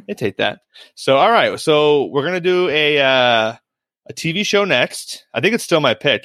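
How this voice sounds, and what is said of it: Half Minnesota accent. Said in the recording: “I'm still talking in like a half Minnesota accent”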